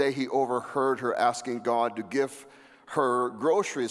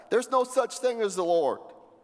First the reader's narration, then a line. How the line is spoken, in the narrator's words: would shout back